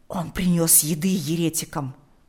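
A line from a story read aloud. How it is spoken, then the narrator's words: Whisper. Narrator (Russian): прошептал он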